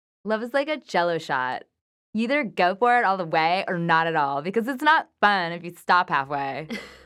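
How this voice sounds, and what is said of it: Valley Girl voice. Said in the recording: “That was a good Valley Girl voice.”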